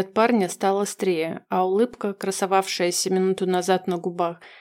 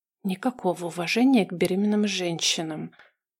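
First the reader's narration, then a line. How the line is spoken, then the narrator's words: Hiss. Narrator (Russian): прошипела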